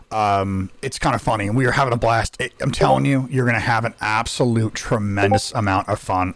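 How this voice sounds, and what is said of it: Hoarse, strained voice. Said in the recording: “lost my voice, because I was laughing so hard ... I'm losing my voice”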